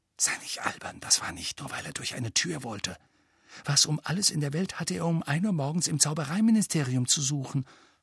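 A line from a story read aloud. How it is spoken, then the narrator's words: Breathy whisper. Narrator (German): hauchte Hermine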